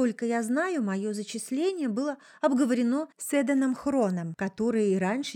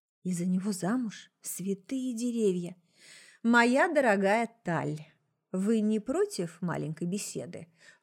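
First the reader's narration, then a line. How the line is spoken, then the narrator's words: Sudden polite social tone. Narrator (Russian): Вдруг светским тоном начал упырь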